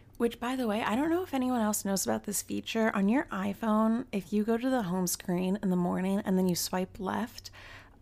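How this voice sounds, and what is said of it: Raspy morning voice. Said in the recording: “Sorry for the raspy voice, like right when I woke up this morning.”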